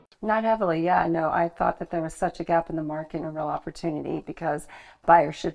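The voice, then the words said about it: American accent. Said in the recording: “with that accent, you're from America”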